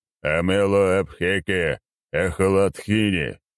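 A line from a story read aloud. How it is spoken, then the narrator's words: Cheerful shout, magician. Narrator (Russian): весело выкрикнул маг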